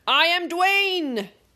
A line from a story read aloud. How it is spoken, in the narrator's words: he shouted valiantly